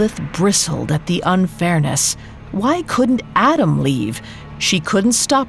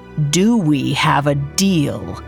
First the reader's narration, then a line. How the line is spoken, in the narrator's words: She asked, almost growling